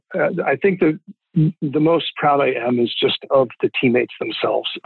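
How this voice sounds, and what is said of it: Emotional, slightly choked-up voice. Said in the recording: “I'm getting a little emotional”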